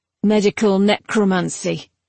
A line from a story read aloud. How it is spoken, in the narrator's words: said her adept dryly